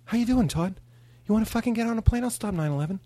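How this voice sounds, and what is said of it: Imitates another person's voice. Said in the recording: “You do a Mark Wahlberg? ... I do a Mark Wahlberg.”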